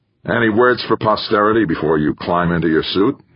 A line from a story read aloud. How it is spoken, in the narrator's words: he asked Gaeta